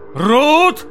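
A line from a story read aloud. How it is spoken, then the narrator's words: Loud commanding shout. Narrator (Russian): крикнул он снова, повелительно и громко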